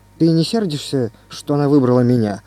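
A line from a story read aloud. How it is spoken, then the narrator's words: Plain. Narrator (Russian): спросил я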